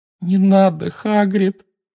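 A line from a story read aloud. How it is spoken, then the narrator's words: Moaning plea. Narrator (Russian): простонала Гермиона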